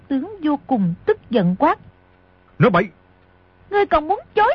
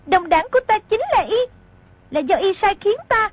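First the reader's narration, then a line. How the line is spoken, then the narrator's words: Loud voice. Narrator (Vietnamese): Mộc Kiếm Bình lớn tiếng nói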